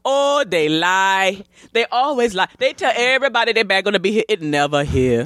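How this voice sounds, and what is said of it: Put-on African accent. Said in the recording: “I think he might have been African. I don't know. I don't want to mess up the accent.”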